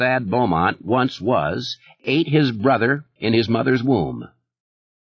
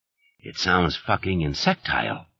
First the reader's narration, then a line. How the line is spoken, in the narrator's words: Alan muttered